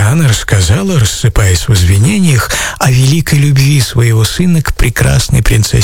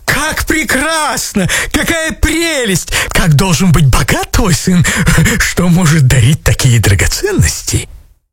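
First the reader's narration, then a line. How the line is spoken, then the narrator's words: Astonished exclamation. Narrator (Russian): вне себя от изумления они воскликнули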